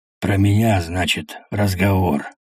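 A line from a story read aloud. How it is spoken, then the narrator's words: Hoarse. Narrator (Russian): проговорил хрипло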